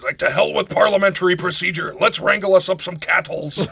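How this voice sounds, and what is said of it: Imitates another person's voice, cowboy voice. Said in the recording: “Liam Neeson as a cowboy”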